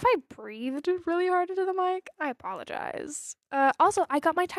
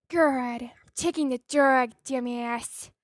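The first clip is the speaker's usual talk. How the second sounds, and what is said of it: Jennifer Coolidge impression. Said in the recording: “my Jennifer Coolidge impression”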